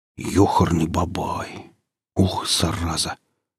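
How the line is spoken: Quiet remark. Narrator (Russian): Негромко поделился впечатлениями фельдшер

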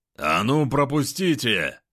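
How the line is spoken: Bearlike roaring bark. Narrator (Russian): рявкнул я и зарычал по медвежьи

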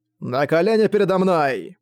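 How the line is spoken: Stern shout. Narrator (Russian): Чен Юань суровым голосом выкрикнув

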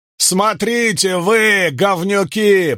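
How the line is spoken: Roaring in Latin. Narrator (Russian): проревел он на латыни

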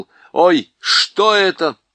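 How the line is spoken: Shout. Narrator (Russian): Юстас крикнул

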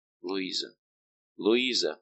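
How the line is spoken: Whisper. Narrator (Russian): прошептал Баржелон

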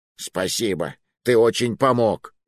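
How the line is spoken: Hiss. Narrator (Russian): прошипел напарник

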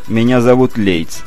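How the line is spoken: Calm interjection. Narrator (Russian): спокойно вмешался в их диалог инспектор

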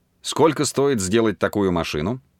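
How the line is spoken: Plain question. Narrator (Russian): спросил Джереми Брэкстон

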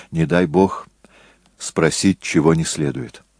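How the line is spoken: Whispered. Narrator (Russian): Джессон шепнул Деборе

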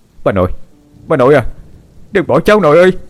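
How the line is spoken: Boy's anguished wail. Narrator (Vietnamese): Hải ... cậu gào lên

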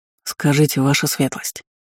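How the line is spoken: Apprentice, quiet. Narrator (Russian): так же тихо произнес ученик магистра

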